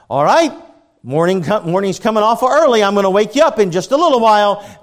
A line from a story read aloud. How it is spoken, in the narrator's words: Dad would yell back upstairs